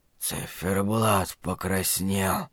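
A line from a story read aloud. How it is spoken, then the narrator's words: Wheezing, coughing man. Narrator (Russian): просипел лежащий на полу мужчина и закашлялся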